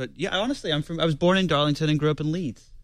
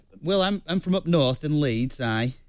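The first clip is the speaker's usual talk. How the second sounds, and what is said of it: Put-on Yorkshire accent. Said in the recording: “You have that accent up in Yorkshire? ... Did you talk like that?”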